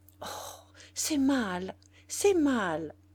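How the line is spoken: Strained stammer. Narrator (French): balbutia-t-elle après un dernier effort

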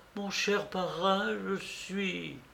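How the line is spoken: Trembling voice. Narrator (French): D'une voix tremblante, je répétais

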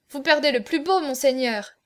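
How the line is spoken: Exclaimed. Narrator (French): s'écria-t-il

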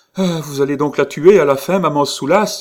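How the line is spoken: Naive despairing cry. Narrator (French): s'écria-t-il, avec un désespoir naïf

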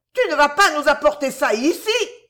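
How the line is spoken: Mother shouting. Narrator (French): cria sa mère

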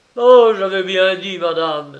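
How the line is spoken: Heated young man's exclamation. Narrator (French): s'écria le jeune homme avec emportement

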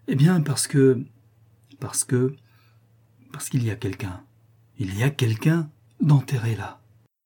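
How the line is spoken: Shivering murmur. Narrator (French): murmura François en frissonnant

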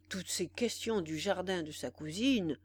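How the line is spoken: Murmuring. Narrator (French): murmura Brichot à Cottard

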